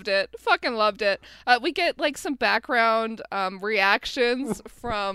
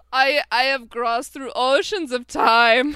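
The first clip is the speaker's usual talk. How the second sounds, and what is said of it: Transylvanian accent. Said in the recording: “he speaks in a like a Transylvanian accent ... It's very good.”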